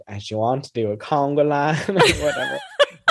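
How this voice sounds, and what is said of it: Impression of Sutton. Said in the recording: “I love your accent. Your impression of Sutton is just, it's so funny.”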